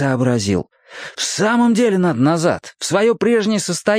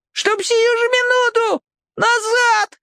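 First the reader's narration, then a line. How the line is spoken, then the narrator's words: Squeaky. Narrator (Russian): пропищал бывший Степан Степаныч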